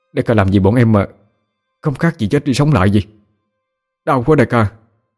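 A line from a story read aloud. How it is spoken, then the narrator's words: Panting, breathless question. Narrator (Vietnamese): thằng Linh thở hổn hển hỏi Tấn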